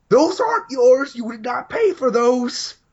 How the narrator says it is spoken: I hear her yelling

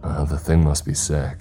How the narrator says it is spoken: my granddad murmurs

